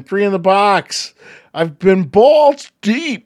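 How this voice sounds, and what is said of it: Poor attempt at Kiwi accent. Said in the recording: “Is that your Kiwi accent? That was pathetic, dude. That was ... horrible. ... doing a Kiwi accent.”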